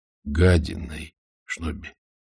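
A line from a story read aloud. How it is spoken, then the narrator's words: Quiet correction. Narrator (Russian): тихо поправил Ваймс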